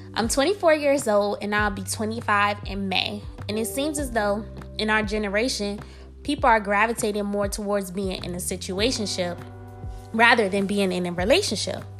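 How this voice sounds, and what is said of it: Slightly congested voice. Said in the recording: “I'm feeling a little under the weather today ... I sound a little congested”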